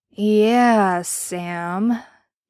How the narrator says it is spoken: he drawled slowly

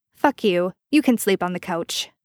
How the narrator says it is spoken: Sam snapped

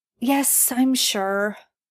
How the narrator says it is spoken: Merlin sighs

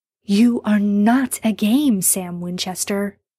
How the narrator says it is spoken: he says fiercely

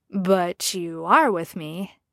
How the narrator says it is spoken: Jacen said, sounding quietly puzzled

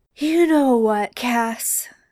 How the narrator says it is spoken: Sam slurred

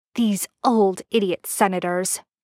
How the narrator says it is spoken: she snaps

